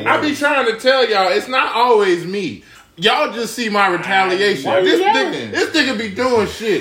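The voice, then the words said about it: Yelling, loud angry voice. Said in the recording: “Why you yelling? ... Why are you yelling?”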